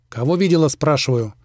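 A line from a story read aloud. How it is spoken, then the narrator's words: Sudden loud bark. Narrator (Russian): рявкнул так, что девчонка аж подпрыгнула от неожиданности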